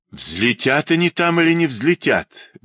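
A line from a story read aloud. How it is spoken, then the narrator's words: Irritated. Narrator (Russian): говорит раздраженно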